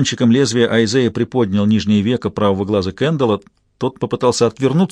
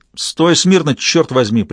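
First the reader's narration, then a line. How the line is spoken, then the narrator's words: Bandit snapping sharply. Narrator (Russian): прикрикнул бандит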